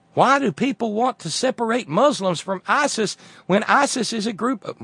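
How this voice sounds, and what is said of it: Put-on Southern American accent. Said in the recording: “why am I giving her a southern accent?”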